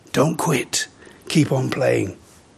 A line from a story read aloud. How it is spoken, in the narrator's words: the great pianist whispered in the boy's ear